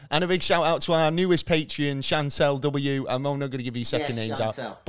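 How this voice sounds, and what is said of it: Strained, fading voice. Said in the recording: “I'm losing my voice and I can't even talk.”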